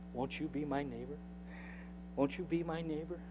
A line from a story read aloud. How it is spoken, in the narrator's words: Rogers softly saying